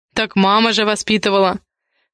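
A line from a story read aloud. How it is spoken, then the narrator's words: Snorting chuckle. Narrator (Russian): хмыкнул Дэм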